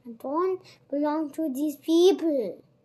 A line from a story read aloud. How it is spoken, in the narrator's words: shouted Oliver